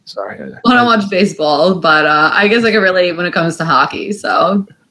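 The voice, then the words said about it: New York accent. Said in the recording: “I can tell by the accent... the New York accent... in your accent”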